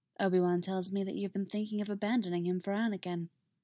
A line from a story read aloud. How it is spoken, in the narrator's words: Shmi says, equally quietly, as if they're just talking about the weather